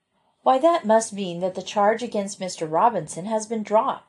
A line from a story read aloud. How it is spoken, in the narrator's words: exclaimed Joe